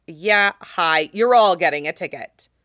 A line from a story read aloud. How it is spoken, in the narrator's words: the man says crossly